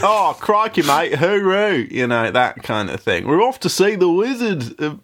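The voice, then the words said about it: Put-on Australian accent drifting Liverpudlian. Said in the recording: “I can do a much better Australian accent than that ... No, that's more the Beatles that I was doing there.”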